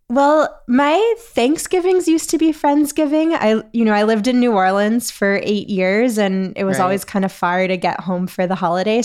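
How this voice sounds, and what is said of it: Sick, under-the-weather voice. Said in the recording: “you might be able to hear in my voice that I am a little under the weather”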